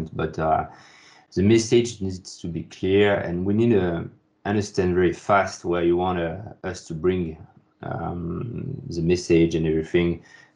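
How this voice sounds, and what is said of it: Speaks English with an accent. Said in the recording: “Sorry for my accent”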